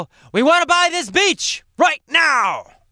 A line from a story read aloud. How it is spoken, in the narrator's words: they'll yell